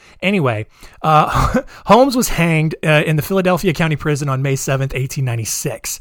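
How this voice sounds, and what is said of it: Usual voice. Nothing is said of it.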